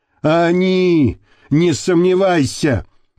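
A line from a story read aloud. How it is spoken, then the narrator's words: Hopeless voice. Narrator (Russian): безнадежным голосом произнес Шакбараев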